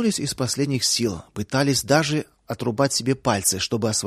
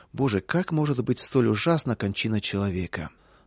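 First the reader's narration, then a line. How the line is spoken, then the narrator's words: Heavy sigh. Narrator (Russian): один из заключенных тяжко вздохнул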